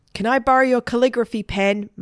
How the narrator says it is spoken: Margaret shouted

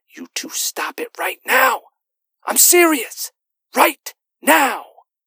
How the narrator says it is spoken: Kenny, our resident peacemaker, whispering through his teeth

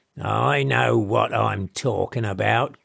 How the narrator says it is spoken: growled Meadows

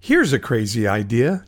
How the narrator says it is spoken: Joseph responded, his lip curling playfully

